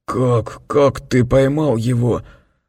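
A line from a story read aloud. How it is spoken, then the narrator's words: Strained, through gritted teeth. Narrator (Russian): Скрежеща зубами, он, наконец, выдавил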